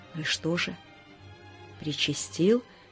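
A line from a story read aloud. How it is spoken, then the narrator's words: Whispered question. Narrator (Russian): шепотом спросил Горбатый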